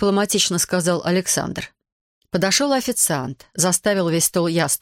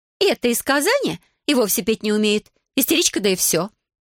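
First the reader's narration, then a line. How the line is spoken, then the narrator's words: Offended. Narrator (Russian): обиженно сказала Лиля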